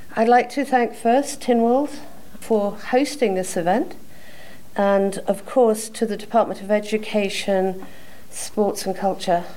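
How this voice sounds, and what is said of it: Non-American, British Isles accent. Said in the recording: “the lack of an American accent... I am proud to reflect both sides of the pond”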